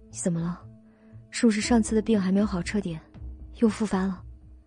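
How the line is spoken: Low concerned question. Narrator (Chinese): 肖九九低声问道

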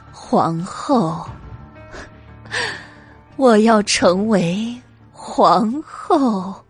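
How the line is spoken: Dreamy whisper in ear. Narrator (Chinese): 白姬在韩国夫人的耳边说道，声音飘渺如梦

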